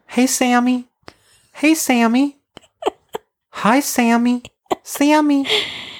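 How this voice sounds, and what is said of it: Imitates another person's cute voice. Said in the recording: “my cute Steph impression ... Steph has such a cute voice”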